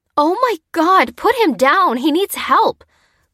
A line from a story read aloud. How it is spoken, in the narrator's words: cried Lucy, aghast